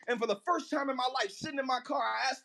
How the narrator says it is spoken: I yelled out in my car and I said

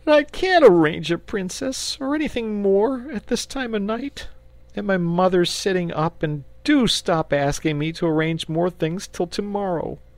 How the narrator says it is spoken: he wailed

